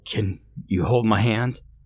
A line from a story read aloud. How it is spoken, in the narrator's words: pleaded like a little child